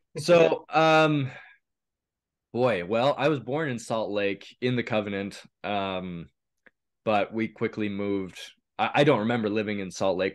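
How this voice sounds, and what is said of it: Slightly raspy voice. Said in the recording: “my voice is a little raspy. I'm getting over a bug or something.”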